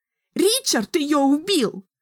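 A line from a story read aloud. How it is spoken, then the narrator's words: Shrieking. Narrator (Russian): завизжала Саманта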